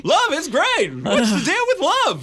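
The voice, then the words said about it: Jerry Seinfeld impression. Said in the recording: “doing a Jerry Seinfeld impression ... I hate your impressions.”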